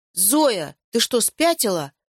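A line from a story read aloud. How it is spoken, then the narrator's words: Feigned offended exclamation. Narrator (Russian): воскликнул Яша, прикидываясь оскорбленным, чтобы никто не заметил его смущения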